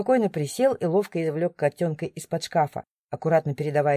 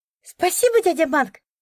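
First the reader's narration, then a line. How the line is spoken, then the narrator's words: Joyful, smiling. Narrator (Russian): Радостно улыбнулась Алиса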